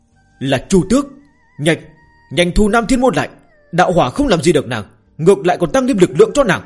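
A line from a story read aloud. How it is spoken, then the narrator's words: Frightened loud cry. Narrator (Vietnamese): Dực La Thiên Vương cảm nhận được sự sợ hãi do thiên địch mang tới mà lớn tiếng la lên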